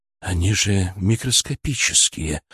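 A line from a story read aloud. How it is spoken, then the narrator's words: Breathless exhale. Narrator (Russian): выдохнул Киселев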